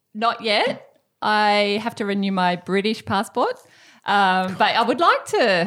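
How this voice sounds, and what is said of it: Australian accent. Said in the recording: “yes, I've got an Australian accent.”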